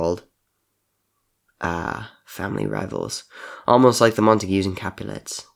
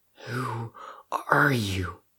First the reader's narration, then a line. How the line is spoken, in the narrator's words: Crow asked shakily